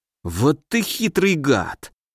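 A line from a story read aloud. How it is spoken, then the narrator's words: Almost hissing. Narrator (Russian): чуть ли не прошипел он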